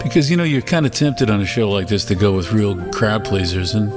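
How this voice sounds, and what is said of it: Brooklyn accent. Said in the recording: “my Brooklyn accent is coming out more doing this show”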